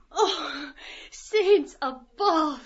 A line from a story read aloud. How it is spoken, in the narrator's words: Miss Deuce said, sighed